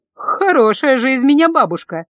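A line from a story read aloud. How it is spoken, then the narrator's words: Laughing. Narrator (Russian): засмеялась Гелла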